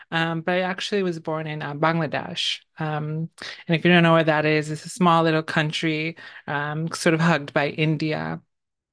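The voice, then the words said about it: American-sounding accent. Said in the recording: “my accent sounds like, you know, I've lived grown up in the States for a while”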